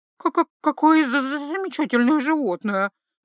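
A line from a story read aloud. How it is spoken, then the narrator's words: Forced, strained. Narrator (Russian): наконец выдавила она из себя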